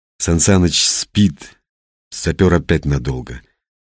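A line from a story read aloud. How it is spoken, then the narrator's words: Plain. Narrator (Russian): сказал Константин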